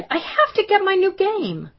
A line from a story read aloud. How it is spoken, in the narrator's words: cried